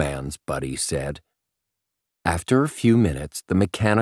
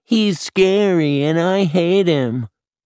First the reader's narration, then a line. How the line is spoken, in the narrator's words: Josh whined, sounding just like little Simon